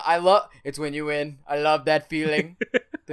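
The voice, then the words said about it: Imitates another person's voice. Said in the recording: “your Trump your Trump imitation sounds a lot like Marrow imitating Trump”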